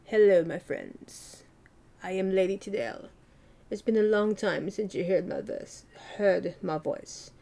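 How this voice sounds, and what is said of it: Put-on character voice. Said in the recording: “do an impression, even though it's a warped impression, you know, like my own impression ... that's my my own character that I've done, that I've created”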